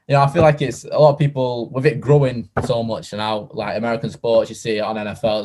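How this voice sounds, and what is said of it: Northern UK English accent. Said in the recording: “UK, if you can't tell by the accents, our northern UK perspectives”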